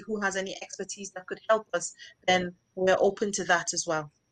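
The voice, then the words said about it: Nigerian accent, mixed with English. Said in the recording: “this is a Nigerian accent ... I think it's a mixture ... it's not totally like, you know, what a London or something, but it's definitely like a mixture”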